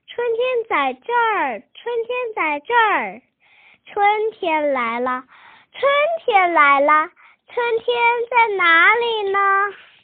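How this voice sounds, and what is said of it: Soft, quiet voice. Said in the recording (Chinese): “小声地说”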